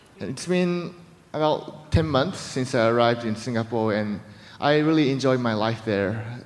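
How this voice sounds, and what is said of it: Japanese accent mixed with American, British, Singaporean. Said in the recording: “my accents, Japanese accent, American accent, British accent, and the Singaporean accent”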